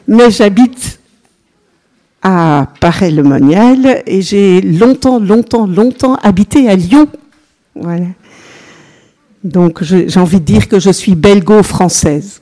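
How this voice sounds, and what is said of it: Slight Belgian French accent. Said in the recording (French): “J'ai un petit accent qui vient de Belgique.”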